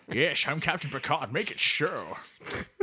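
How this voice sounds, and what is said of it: Attempted Scottish-sounding Picard impression. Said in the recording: “every Scottish accent to you is Captain Picard ... That's not Captain Picard. That would be Scotty”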